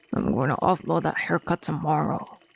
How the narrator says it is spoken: Mostly to himself, he grumbled

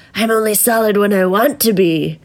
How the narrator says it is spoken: he sneered menacingly

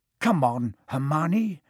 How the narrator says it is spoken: Ron muttered desperately

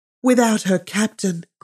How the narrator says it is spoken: cried Dantès, his eyes sparkling with animation

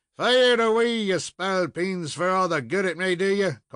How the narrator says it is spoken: called out the Irishman

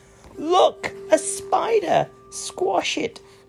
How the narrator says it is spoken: someone screamed

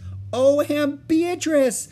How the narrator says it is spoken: she exclaimed

